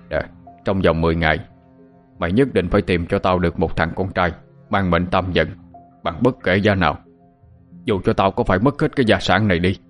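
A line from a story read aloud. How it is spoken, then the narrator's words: Harsh, stern voice. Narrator (Vietnamese): ông gằn giọng nói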